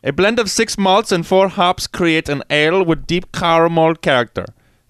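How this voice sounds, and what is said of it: Put-on vaguely German accent. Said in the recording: “Since when is Laurelwood German ... I don't even know what kind of accent I'm doing right now.”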